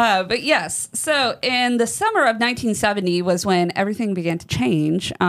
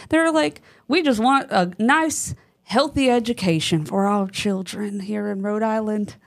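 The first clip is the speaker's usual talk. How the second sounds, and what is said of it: Put-on Rhode Island accent. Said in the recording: “is that your Rhode Island accent? ... your New England.”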